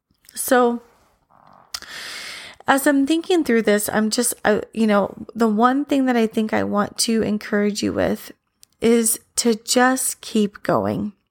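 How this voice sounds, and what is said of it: Strained, fading voice. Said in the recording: “I think I'm losing my voice a little bit”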